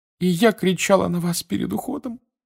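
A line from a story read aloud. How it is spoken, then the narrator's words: Sobbing. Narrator (Russian): вновь зарыдала миссис Уизли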